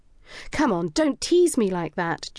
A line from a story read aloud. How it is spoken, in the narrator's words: pleaded